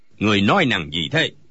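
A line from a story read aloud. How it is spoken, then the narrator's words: Old man shouting. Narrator (Vietnamese): Lão liền quát lên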